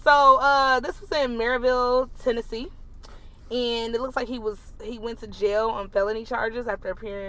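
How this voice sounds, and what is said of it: Southern country accent with urban touch. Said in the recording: “my little accent, because it's a little bit of hood and country at the same time”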